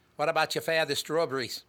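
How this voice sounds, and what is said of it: Put-on old New England accent. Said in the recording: “the New Hampshire accent ... That's a Kennedy accent you just did ... It also sounds like a Pepperidge Farm accent”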